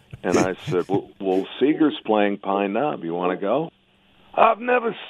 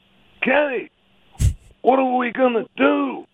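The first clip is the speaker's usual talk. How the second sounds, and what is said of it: Convincing impersonation of another voice. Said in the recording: “That's a great impersonation.”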